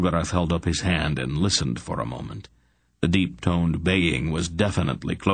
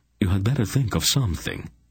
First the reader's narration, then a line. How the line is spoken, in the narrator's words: Silk said, looking back nervously